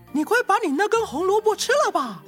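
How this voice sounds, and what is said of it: Small little mouse voice. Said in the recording (Chinese): “有个小小的声音说”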